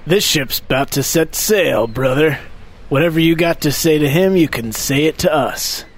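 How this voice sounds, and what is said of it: Imitates a wrestler's gravelly voice. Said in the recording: “Suddenly I've morphed into Macho Man Randy Savage.”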